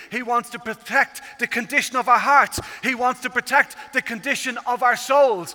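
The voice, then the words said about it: Irish accent. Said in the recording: “I come from Ireland, as you can tell at this stage by the accent.”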